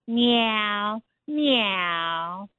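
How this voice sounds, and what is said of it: Good imitation of a cat. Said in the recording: “That's a good imitation of a pussy cat.”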